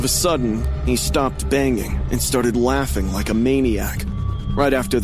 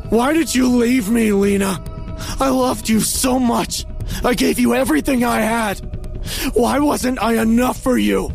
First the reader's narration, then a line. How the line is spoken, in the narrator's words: he was back to yelling again, totally screaming crazy stuff